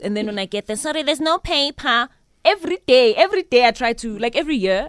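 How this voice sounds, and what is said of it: Put-on accent. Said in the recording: “Why are you speaking with an accent? Why are you speaking with an accent?”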